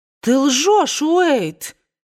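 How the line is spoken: Exclaimed. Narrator (Russian): воскликнула ... Скарлетт

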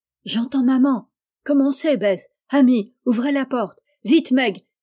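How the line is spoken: Exclaimed. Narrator (French): s'écria Joe

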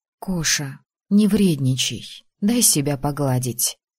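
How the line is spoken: Quiet request. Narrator (Russian): тихо попросила

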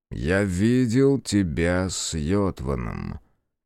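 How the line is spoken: Slow, thoughtful, to himself. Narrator (Russian): медленно и задумчиво сказал он вслух, но будто сам себе

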